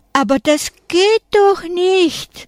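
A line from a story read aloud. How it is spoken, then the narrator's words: Desperate cry. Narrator (German): ruft Frau Frommer verzweifelt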